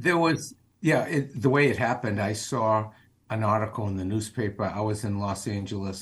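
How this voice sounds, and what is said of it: Boston accent. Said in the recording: “somebody with a Boston accent”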